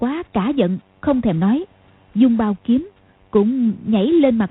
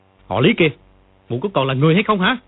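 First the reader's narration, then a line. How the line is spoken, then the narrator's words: Furious shouting. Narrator (Vietnamese): Dương Quá giận không để đâu cho hết, quát lên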